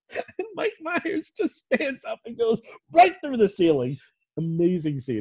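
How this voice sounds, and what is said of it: Loud, excited shouting. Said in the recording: “you're screaming”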